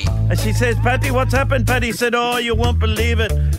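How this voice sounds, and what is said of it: Poor put-on accent. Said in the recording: “So not only a woeful accent”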